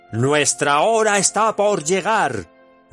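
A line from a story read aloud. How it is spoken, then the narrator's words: Shouting. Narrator (Spanish): gritó Saruman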